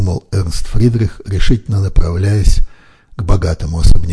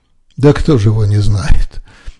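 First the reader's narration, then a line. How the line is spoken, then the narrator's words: Laughing. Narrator (Russian): горожанин засмеялся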